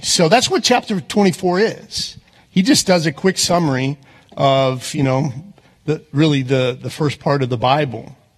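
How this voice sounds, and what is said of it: Texas accent. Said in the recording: “my Texas accent comes out, I apologize, sometimes it just does”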